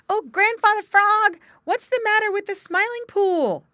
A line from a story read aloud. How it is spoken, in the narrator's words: they shouted as they came up quite out of breath